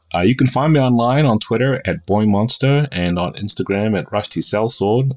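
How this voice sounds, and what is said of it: Hybrid New Zealand-American accent. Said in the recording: “I have stuck myself with the accent of a hybrid New Zealander and American”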